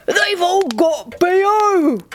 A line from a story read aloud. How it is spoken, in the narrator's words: Cupid squealed